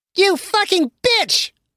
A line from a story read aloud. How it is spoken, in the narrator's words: a tiny voice screamed in the living room